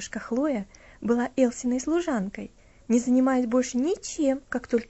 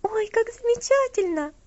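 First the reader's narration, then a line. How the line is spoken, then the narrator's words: Joyful exclamation. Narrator (Russian): восклицала Элси, радостно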